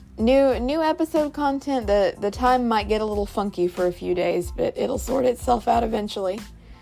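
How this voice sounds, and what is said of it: Voice giving out, strained. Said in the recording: “my voice is going, it sounds like.”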